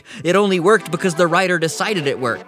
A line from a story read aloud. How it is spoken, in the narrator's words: yell at a fictional man and say